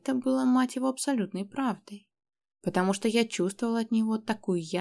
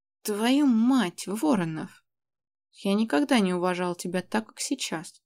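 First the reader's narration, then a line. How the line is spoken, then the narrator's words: Hoarse rasp. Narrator (Russian): прохрипел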